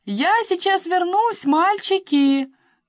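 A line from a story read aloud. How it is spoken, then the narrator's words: Shout from the kitchen. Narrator (Russian): крикнула из кухни Кэролайн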